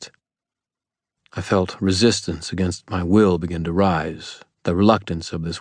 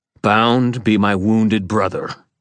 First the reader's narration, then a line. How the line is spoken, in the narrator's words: I growled, forcing my will into my voice, making it ring from the stones and trees and water